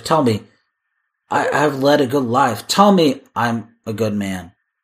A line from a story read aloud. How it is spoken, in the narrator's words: he stammers